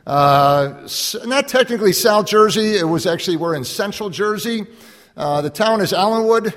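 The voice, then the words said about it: Mixed Chicago and Jersey Shore accent. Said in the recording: “that guy kind of sounds funny. It's a dysfunctional hybrid between a Chicago and a Jersey Shore accent”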